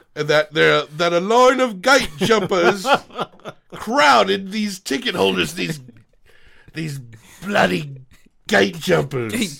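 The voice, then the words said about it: Put-on English accent. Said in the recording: “This is like my accent.”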